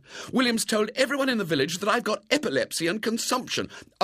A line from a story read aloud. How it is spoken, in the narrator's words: said angrily